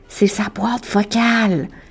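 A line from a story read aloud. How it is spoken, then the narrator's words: Murmured, as if recording. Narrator (French): murmure Ray comme si sa voix enregistrait déjà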